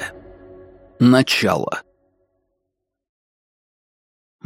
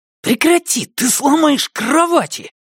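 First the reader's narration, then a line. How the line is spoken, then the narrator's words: Hissed. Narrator (Russian): прошипел Адени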